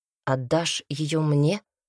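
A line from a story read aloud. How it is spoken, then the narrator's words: Plain. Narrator (Russian): спросил он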